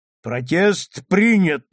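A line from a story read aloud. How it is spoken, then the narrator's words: Booming judge. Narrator (Russian): прогремел судья со своего возвышения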